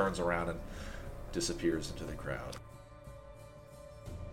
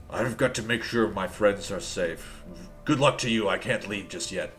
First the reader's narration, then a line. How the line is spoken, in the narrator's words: Protos kind of growls to you